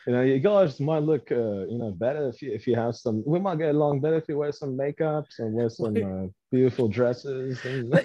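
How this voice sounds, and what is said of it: Put-on Australian Crocodile Dundee accent. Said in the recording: “You are doing Crocodile Dundee, sir. ... He's Australian. ... He doesn't sound like that. ... I'm doing an accent.”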